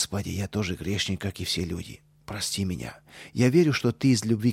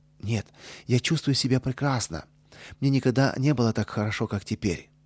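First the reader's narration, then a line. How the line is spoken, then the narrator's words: Cheerful, sharing joy. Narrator (Russian): поделиться с мамой своей радостью, и весело ответил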